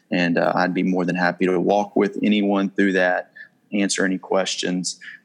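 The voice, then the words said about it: Southern US accent. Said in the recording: “his accent ... I grew up in the South, and so I miss my accent”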